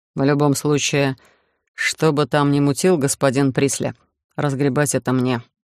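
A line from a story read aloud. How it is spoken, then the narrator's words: Gloomy summary. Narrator (Russian): мрачно резюмировал Мак-Иш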